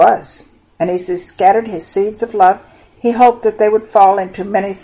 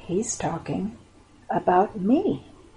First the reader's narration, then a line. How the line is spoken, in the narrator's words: a man or woman, boy or girl, said softly